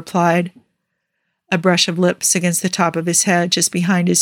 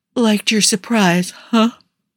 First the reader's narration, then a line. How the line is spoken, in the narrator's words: Tony asked around a yawn